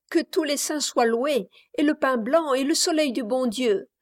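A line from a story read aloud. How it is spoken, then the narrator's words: Exclaiming. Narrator (French): s'écria la plus leste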